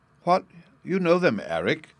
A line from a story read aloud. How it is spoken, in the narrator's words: she exclaimed